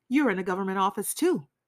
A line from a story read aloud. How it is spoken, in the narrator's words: Raskolnikov cried